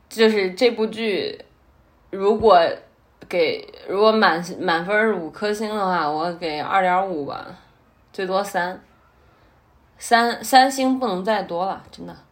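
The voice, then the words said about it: Mandarin with a Henan accent. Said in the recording (Chinese): “我发现我真的有口音，我带的是有正儿八经的河南话口音的 ... 但是我经常是多么多么东北腔”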